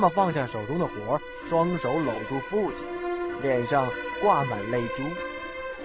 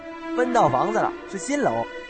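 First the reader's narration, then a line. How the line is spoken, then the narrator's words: Happy, smiling. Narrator (Chinese): 父亲很高兴，脸上挂满了笑，就说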